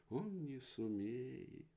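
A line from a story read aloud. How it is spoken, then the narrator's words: Sad child. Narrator (Russian): печально говорит первый мальчик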